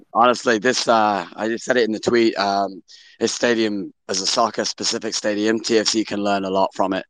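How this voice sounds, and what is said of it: Hoarse, worn-out voice. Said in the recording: “My voice is gone. Been screaming for a while.”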